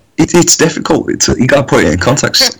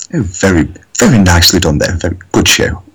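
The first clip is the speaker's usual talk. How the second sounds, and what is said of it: Put-on stereotypical posh English accent. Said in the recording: “the stereotypical posh English ... accent ... You sound just like Posh Spice.”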